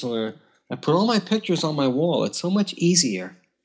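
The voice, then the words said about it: Old Jewish woman accent. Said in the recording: “you have to do it with the old Jewish accent. ... like that woman on the commercials”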